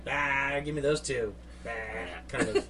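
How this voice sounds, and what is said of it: Gruff character voice impression. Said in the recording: “I like your Bron impersonation”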